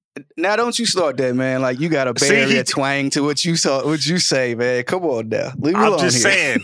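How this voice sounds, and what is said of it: East Coast New York accent. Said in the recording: “Somehow has an East Coast accent, but being from the West Coast ... came back to with the rebuttal with a New York accent ... I do hear the accent”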